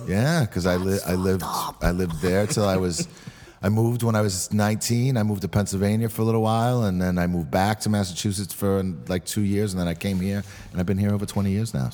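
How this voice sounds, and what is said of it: Boston and Brooklyn combined accent. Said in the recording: “It was very ... Boston, ... enunciated. ... Brooklyn way. ... Brooklynism. ... My accent now is very Boston Brooklyn combined. ... Tough guy.”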